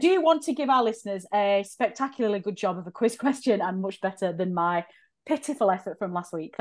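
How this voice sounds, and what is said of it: Out of breath, winded speech. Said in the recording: “I just run up the stairs halfway through the recording. I feel like I'm out of breath.”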